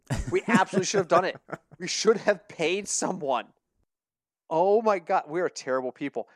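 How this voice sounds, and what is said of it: Usual voice. Nothing is said of it.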